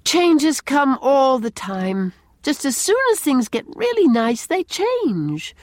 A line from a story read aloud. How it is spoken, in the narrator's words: she said with a sigh